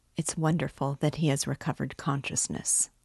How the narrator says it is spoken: the doctor whispered softly to Raskolnikov

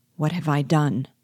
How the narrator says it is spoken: asked he

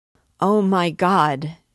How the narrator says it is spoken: she instantly exclaimed, hiding her head upon her knees, and it seemed as if her hoarse voice tore her chest

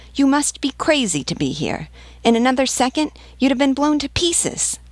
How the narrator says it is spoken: The vivandière added furiously

